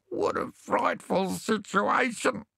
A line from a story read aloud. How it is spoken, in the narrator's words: wailed